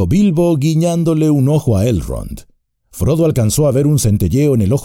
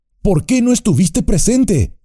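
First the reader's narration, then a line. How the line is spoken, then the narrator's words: Shouted. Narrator (Spanish): gritó Frodo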